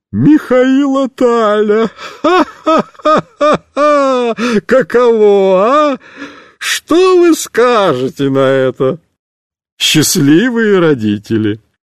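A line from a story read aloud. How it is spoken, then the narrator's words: Prolonged laughter. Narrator (Russian): будет смеяться еще полчаса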